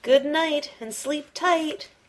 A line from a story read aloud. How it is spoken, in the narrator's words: whispered Little Rabbit